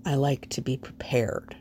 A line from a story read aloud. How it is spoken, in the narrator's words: he murmurs at last